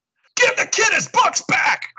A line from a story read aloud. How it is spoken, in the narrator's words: Cloud roars